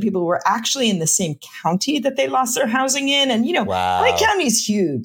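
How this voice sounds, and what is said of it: New York accent, fast talker. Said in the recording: “you can't tell from my accent and how fast I talk, I'm from New York”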